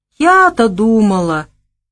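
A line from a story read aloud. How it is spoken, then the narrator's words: Disappointed drawl. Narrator (Russian): разочарованно протянула девушка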